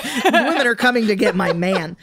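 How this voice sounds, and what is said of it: Impression of a jealous stereotyped woman. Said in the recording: “that was a good impression.”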